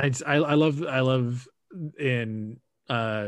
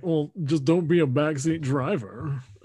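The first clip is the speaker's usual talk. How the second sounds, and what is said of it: Imitates a cartoon character's voice. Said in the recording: “good Vernon impersonation”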